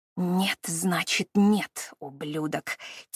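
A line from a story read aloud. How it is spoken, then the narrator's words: Quiet hiss in ear. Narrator (Russian): тихо прошипела ему на ухо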